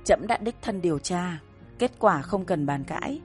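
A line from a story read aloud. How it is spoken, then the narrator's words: Cold, dismissive. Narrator (Vietnamese): Thân Giang Kiệt một câu lạnh lùng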